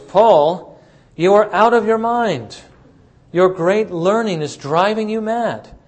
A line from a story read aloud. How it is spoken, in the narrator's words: Festus said in a loud voice